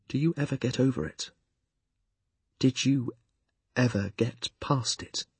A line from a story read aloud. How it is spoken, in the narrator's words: He asked me so earnestly